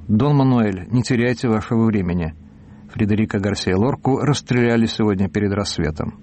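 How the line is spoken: Calm. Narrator (Russian): Я сказал спокойно

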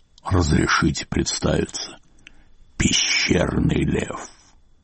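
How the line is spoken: Growled. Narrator (Russian): прорычал

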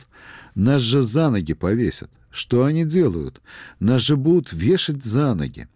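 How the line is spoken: Alarmed exclamation. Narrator (Russian): Степашин воскликнул

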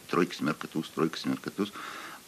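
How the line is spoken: Muttered. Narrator (Russian): бормочет

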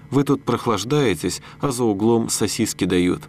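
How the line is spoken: Calm. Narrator (Russian): так спокойно говорит

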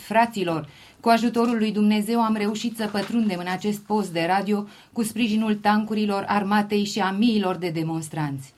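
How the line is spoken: Exclaiming on radio. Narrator (Romanian): Tot la radio București, o persoană neidentificată a exclamat

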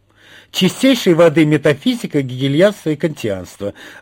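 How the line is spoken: Joyful exclamation. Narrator (Russian): радостно воскликнула пропаганда Парамоновна

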